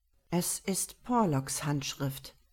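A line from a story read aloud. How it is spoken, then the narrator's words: Thoughtful murmur. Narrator (German): murmelte er nachdenklich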